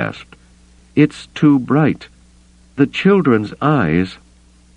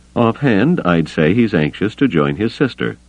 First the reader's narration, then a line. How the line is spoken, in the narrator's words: the medic said dryly